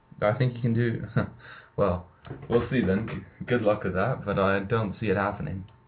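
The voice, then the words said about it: Slight British accent. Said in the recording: “not too much of a British accent, but you know, a little bit though.”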